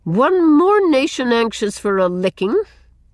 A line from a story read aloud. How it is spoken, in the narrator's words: Susan only remarked scornfully